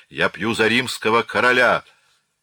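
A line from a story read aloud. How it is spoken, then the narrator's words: Enthusiastic shout. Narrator (Russian): Захваченный неистовым энтузиазмом толпы, он прокричал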